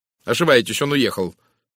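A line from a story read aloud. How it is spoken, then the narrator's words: Sharp objection. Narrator (Russian): резко возразила Тереза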